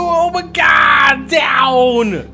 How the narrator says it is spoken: He yells with shock on his face

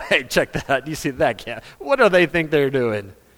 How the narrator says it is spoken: we laugh at them

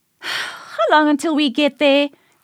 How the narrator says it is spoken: She sighed

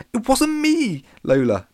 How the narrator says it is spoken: pleaded Alex

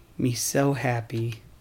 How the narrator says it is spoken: whisper

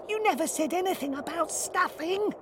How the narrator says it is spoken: whispered the abominable snowman

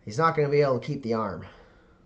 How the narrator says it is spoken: she, kind of, like, lets out a sigh and goes

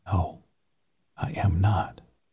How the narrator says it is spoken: whispered

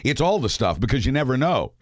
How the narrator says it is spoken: said Cohen

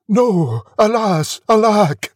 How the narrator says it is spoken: The prince cried

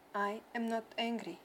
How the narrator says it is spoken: the boy said calmly

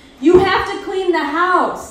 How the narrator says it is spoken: the dad is always screaming

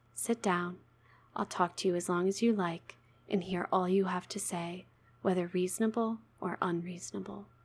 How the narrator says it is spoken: said to him soothingly

